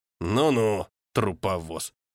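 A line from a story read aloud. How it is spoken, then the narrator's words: Hostile mutter, old man. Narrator (Russian): процедил старик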